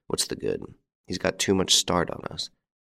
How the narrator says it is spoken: I heard him mutter

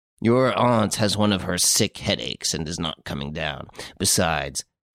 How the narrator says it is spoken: he added gruffly

